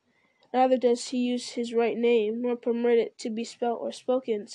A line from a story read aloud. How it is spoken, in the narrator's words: said Aragorn